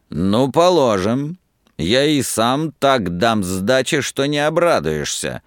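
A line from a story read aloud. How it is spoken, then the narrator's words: Rude boyish shout. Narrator (Russian): грубо, совсем по-мальчишески выкрикнул Собашников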